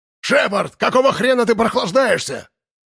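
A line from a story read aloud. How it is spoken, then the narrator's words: Yelling. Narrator (Russian): завопил Логан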